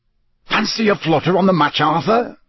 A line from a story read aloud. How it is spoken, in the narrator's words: he said eagerly